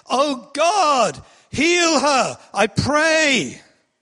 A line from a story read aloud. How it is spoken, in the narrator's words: cried out to the Lord, saying